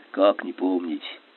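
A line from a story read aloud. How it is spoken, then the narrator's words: Sighing reply. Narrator (Russian): Гусев вздохнул в ответ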